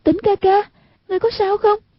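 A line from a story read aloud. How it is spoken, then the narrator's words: Frightened cry. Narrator (Vietnamese): Hoàng Dung vô cùng ngờ sợ, kêu lên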